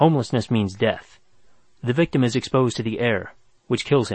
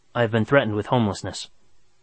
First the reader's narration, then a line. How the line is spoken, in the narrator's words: said Kuno